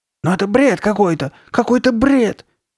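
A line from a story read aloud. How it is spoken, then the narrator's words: Shrill insistent repetition. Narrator (Russian): твердила Карли Бет пронзительным голосом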